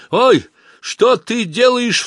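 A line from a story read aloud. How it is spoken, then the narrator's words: Startled cry. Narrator (Russian): вскрикнул он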